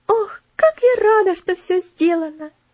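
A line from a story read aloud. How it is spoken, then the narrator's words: Joyful exclamation. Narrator (Russian): Элси радостно воскликнула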